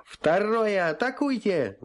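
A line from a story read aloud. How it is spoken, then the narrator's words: Yelling. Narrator (Russian): заорал я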